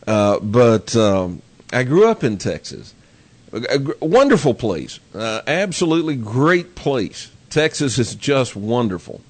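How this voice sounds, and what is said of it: Texan accent. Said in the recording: “I grew up in Texas, as if you can't tell by my accent.”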